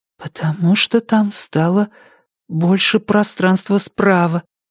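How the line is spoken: Whispered. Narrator (Russian): прошептала она

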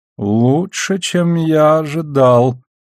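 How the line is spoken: Respectful drawl. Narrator (Russian): не без уважения протянул Шет

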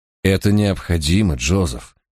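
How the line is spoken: Soft. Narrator (Russian): мягко произнес я

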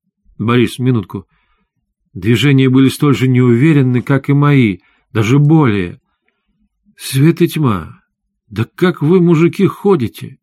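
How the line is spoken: Sudden exclamation. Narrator (Russian): внезапно воскликнула она

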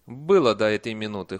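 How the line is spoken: Snorting. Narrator (Russian): хмыкнула матушка

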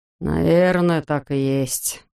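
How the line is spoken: Sighing. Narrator (Russian): вздохнул Бигелоу

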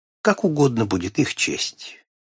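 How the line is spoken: Calm. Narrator (Russian): он спокойно ответил

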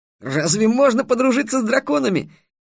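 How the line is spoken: Exclaimed. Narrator (Russian): воскликнул Дерек

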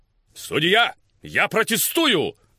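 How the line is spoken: Shouted. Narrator (Russian): крикнул сэр Лотиан Хьюм

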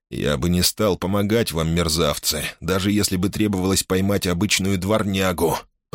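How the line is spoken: Muttering. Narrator (Russian): пробормотал Чаттон

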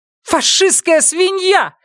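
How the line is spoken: Shouted. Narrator (Russian): выкрикнула Эва

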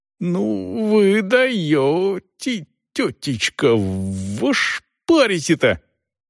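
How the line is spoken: Strained, forced out. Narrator (Russian): Наконец ему удалось выдавить из себя

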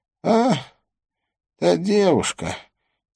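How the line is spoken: Quiet. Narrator (Russian): тихо произнес он

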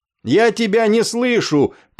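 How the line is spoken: Shouting. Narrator (Russian): прокричал Афрей

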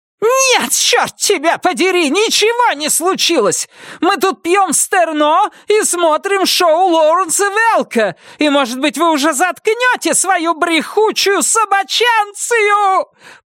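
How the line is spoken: Shrieking. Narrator (Russian): провизжала Вильма

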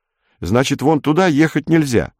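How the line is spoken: Plain. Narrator (Russian): сказал Пашка

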